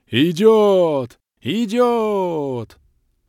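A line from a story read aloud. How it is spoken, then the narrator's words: Crowd roaring. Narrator (Russian): взревела толпа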